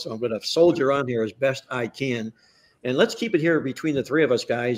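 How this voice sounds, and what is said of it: Hoarse, strained, failing voice. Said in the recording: “I am obviously losing my voice. Not my mind, but I'm losing my voice”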